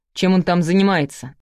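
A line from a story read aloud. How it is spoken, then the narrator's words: Irritated question. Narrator (Russian): спросил он раздражённо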